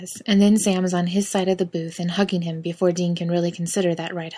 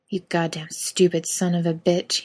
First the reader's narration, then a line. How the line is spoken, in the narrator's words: he hears himself muttering into Sam's shoulder